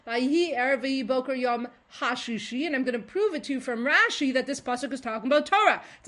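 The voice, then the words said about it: Very fast excited speech. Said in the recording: “I'm so excited, I'm talking so fast.”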